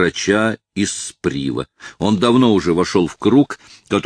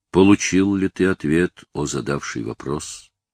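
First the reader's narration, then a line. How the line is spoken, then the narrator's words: Gentle question. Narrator (Russian): мягко спросил он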